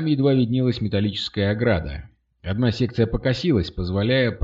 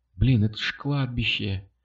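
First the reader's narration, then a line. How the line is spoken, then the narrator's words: Whispered. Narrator (Russian): прошептала Катя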